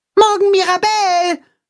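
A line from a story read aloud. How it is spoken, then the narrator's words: Calling after someone. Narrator (German): ruft Max ihr nach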